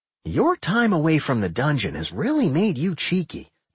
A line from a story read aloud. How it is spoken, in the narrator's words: Doc grumbled